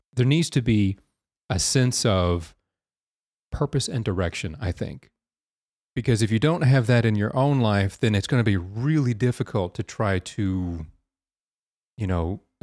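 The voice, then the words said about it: Deep, congested voice. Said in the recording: “my voice sounds especially deep this week, it's because I have a little bit of congestion ... So if I sound a bit like Batman, it's just because I have a sore throat.”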